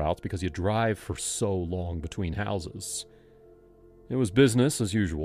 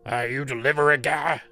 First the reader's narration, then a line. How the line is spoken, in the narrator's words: barked